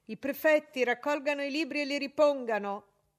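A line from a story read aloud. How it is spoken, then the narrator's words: Shouted. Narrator (Italian): gridò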